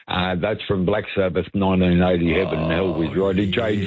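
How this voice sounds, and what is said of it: Usual voice. Nothing is said of it.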